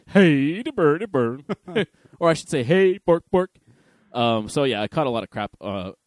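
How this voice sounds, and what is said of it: Mock Swedish chef voice. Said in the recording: “say it like the Swedish chef would ... throw some accent into it”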